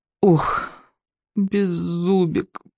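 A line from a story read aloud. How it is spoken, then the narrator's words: Groaning. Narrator (Russian): простонал Икинг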